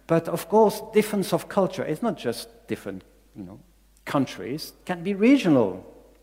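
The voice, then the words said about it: Belgian-accented non-native English. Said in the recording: “I don't have really an English accent. So this is because I'm from another country, I'm from Belgium.”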